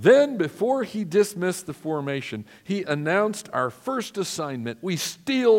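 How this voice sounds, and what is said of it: Usual voice. Nothing is said of it.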